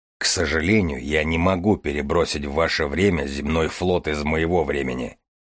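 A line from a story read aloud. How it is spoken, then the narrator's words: Deep bass voice. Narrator (Russian): проговорил Железовский басом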